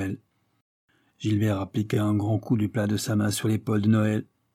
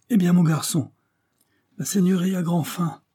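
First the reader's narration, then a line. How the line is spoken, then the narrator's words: Exclaiming. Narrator (French): s'écria-t-il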